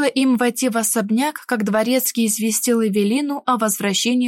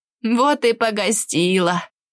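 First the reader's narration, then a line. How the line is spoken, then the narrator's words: Laughing nanny. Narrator (Russian): посмеялась нянечка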